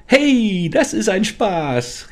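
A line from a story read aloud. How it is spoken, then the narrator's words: Excited creature shout. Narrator (German): rief das Wesen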